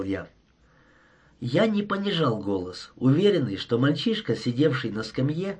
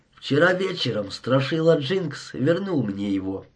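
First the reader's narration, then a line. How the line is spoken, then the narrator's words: Calm, unruffled tone. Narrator (Russian): сказал невозмутимым тоном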